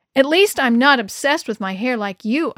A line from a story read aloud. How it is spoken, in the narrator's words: I snapped